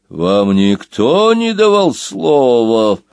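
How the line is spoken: Growling whirlwind. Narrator (Russian): прорычал старший вихрь

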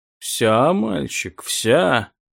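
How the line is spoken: Muttered. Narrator (Russian): пробормотал Саван-де-саркофаг

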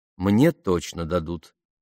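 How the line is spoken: Calm explanation. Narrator (Russian): спокойно пояснила Памела

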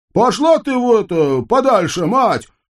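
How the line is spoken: Shouted after her. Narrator (Russian): крикнул ей вслед выбивальщик долгов

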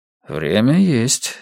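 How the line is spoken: Calm objection. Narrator (Russian): спокойно возразил комиссар

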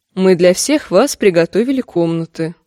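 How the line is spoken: Plain. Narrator (Russian): сказала она олене

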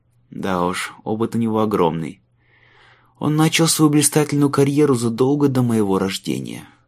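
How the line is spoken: Sighing. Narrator (Russian): вздохнул Майлз

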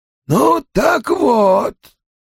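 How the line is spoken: Hoarse wheeze. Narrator (Russian): прохрипела Бетти Фуллер

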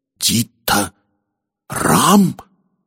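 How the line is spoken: Trembling exclamation. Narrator (Russian): дрожащим голосом воскликнул Корвелл

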